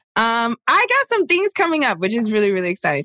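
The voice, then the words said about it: Excited, high-pitched voice. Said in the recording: “Sorry, I just got really excited. I got my like high voice there.”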